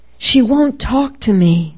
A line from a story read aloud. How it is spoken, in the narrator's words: whimper